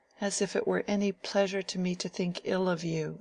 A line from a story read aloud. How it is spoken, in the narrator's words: said Mary in a mournful tone